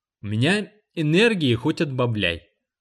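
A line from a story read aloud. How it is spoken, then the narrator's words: Plain. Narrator (Russian): ответила Дженни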